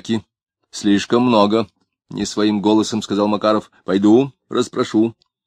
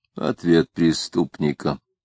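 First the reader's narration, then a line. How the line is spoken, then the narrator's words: Grumbling. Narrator (Russian): проворчал Макаров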